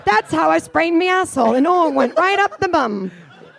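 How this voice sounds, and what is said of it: Badly done put-on accent. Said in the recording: “that was a bad accent”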